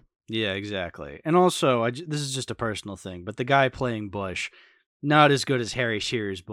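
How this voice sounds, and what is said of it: Usual voice. Nothing is said of it.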